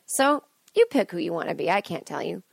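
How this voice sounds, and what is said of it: Passive-aggressive tone of voice. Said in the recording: “the passive-aggressive way my voice is going.”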